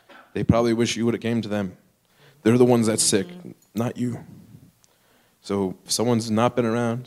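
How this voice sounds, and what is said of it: Choked up, emotional voice. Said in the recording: “I'm a little choked up.”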